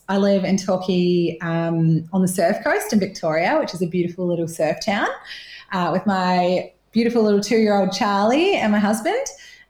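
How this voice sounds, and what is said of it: Slight New Zealand twang. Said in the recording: “I'm originally from New Zealand... sometimes you can hear my little twang when I say six and stuff.”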